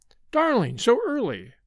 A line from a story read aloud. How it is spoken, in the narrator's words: she cried